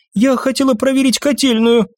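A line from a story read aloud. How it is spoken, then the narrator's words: Babbling. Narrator (Russian): пролепетала Феррер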